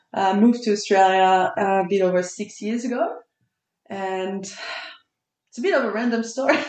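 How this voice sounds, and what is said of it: Strong French accent. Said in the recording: “you've got a strong accent. You're from France.”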